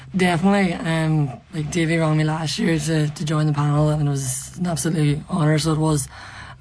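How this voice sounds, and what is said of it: Hoarse voice. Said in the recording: “hoarse from Sunday ... I'm still hoarse from the game”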